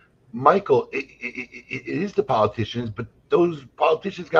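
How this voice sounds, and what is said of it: Usual voice. Nothing is said of it.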